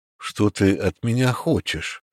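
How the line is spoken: Plain. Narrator (Russian): спросил Арчил

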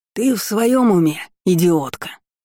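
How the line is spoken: Growl. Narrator (Russian): рыкнул он

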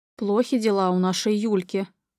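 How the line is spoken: Grumbling mutter. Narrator (Russian): пробурчал он

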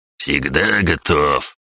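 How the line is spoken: Creaky voice. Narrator (Russian): проскрипел я

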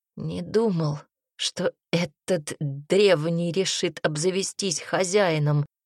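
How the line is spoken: Hoarse wheeze. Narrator (Russian): прохрипел Арчи

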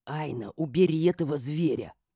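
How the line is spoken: Hissed. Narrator (Russian): прошипел Грэем

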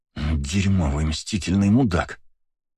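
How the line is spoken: Hissed. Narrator (Russian): прошипел я

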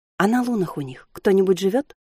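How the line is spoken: Whispered question. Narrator (Russian): почему-то шепотом спросила Айя

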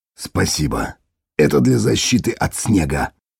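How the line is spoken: Muttered. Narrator (Russian): пробормотал он

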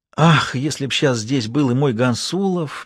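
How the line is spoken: Dreamy sigh. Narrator (Russian): мечтательно вздохнула она

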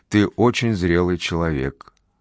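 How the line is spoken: Approving. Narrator (Russian): Кармен одобряюще сказала

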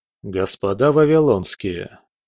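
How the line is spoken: Calm, even voice. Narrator (Russian): начал он спокойным, ровным голосом

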